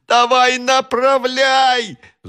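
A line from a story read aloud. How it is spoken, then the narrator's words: Shouted. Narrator (Russian): закричал Иван Ефимович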